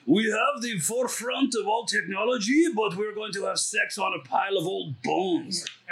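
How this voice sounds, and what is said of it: Terrible put-on foreign accent. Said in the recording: “That was a terrible accent. ... That was the same as your rubber tapper accent. ... It's a swindling traitor accent. ... I thought it was the wizard from Conan.”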